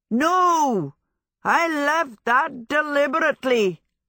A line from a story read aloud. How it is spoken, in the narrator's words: Hal bellowed